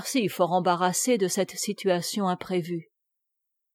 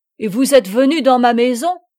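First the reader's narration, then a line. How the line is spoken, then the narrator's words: Shouting. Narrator (French): cria Olivier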